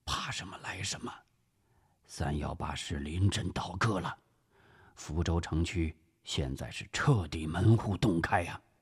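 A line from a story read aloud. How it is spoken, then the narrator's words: Lowered voice. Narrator (Chinese): 朱绍良压低声音说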